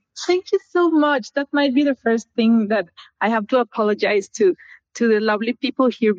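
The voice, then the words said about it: Thick non-native accent. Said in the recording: “you have such a great accent ... my accent might be a little thick”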